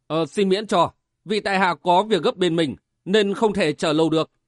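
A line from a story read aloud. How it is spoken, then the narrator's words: Cold reply. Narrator (Vietnamese): Chàng lạnh lùng đáp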